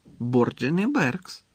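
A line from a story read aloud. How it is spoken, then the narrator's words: Calm repetition. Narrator (Ukrainian): спокійно повторив Дамблдор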